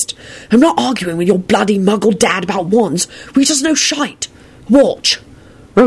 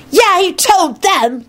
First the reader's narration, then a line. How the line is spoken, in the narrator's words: Timothy shouted happily